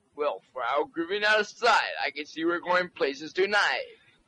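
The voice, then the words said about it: Disc jockey style voice. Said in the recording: “sort of a disc jockey voice... Can you sound like a disc jockey?... It's a pain in the ass for my voice.”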